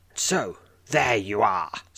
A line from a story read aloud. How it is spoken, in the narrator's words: snarls the shadow woman